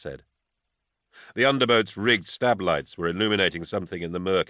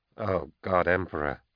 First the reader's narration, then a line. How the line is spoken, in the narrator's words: Kiss muttered